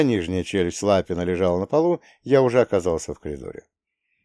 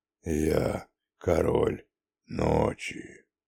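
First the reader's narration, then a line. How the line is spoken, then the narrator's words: Slow, very deep, sinister drawl. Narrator (Russian): Максимально низким басом с самой зловещей интонацией, на которую только был способен, медленно протянул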